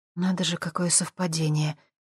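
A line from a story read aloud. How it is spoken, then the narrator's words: Soft whisper. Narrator (Russian): тихо шепнула она Дэну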